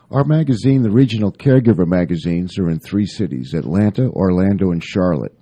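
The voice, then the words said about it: Smooth radio-announcer voice. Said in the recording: “you have that radio voice”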